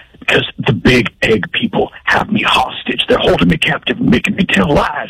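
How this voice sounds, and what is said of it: Whispering. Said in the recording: “I'm going to have to whisper.”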